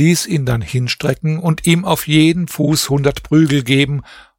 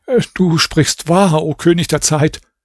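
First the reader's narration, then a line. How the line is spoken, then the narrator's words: Stammering. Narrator (German): Raschid sagte stammelnd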